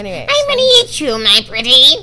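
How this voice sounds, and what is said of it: Impression of a cackling witch voice. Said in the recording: “That sounded like I did a really good impression.”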